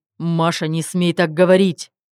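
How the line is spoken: Furious roar, husband. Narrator (Russian): Взревел муж

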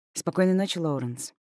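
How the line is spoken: Soft whisper. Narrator (Russian): прошептала я

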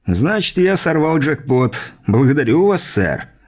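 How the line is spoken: Wry snort. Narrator (Russian): хмыкнул он

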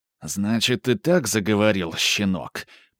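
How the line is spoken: Hissing. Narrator (Russian): прошипел итальянец

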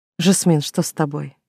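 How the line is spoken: Dazed mumble. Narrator (Russian): пробормотала я, чувствуя, как мир вокруг начинает плыть

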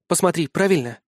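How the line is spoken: Timid question. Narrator (Russian): робко спросила Батова

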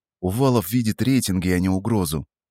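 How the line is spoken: Calm, suppressed anger. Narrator (Russian): Ответил я спокойно, хотя внутри у самого все кипело

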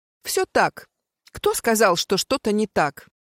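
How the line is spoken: Snapped. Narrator (Russian): огрызнулась она

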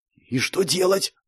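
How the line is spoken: Anxious whisper. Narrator (Russian): с волнением в голосе прошептал я

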